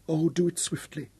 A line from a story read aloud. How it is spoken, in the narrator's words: she pleaded as another spasm gripped her